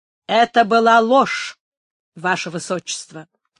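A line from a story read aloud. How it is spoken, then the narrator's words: Firm, almost stern. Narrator (Russian): твердо и почти строго отвечал Антонио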